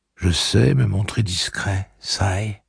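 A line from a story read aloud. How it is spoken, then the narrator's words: Plain male. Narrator (French): répondit-il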